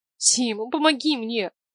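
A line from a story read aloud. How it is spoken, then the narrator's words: Pleading. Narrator (Russian): Взмолилась Варя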